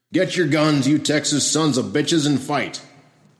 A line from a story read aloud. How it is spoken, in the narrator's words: voice called out from the street